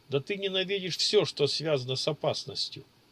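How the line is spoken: Loud laughter. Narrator (Russian): расхохотался Чироки

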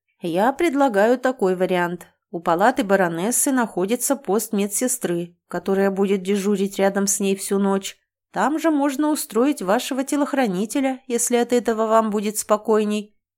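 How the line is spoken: Plain. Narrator (Russian): ответил лекарь

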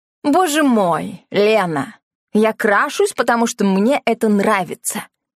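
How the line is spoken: Angry. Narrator (Russian): сердито выдал Йохан

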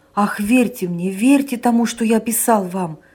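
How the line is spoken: Exclaimed. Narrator (Russian): воскликнул Санин

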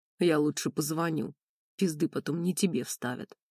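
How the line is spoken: Gruff mutter. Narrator (Russian): буркнул Лысый

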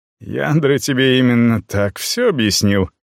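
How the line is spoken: Chuckle. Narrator (Russian): хохотнул

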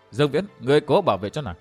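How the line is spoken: Smiling, encouraging. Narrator (Vietnamese): Thủy Minh Hoàn mỉm cười khích lệ

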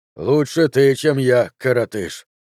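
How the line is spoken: Through gritted teeth. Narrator (Russian): сказал Лавделл сквозь зубы

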